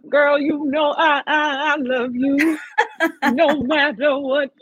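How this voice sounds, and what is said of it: Imitates another person's voice. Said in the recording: “I love the impersonation. That was so good. That was really good.”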